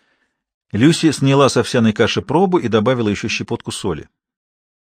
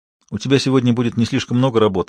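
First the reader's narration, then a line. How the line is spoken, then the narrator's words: Plain. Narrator (Russian): сказала Люси мужу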